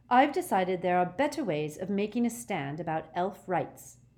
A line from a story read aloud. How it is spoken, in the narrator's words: said Hermione haughtily